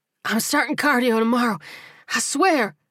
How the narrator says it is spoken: George gasped as he caught up

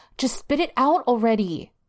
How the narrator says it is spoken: Angel exclaimed impatiently

